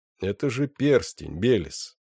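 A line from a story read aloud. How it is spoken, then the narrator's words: Calm. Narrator (Russian): спокойно сказал Сайлос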